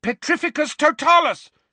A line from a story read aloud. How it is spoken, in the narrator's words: shouted Harry